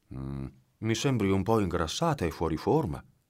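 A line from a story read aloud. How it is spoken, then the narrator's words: Murmured. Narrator (Italian): mormorò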